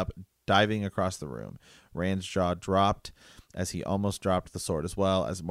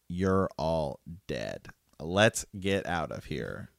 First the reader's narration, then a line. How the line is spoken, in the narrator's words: Perrin says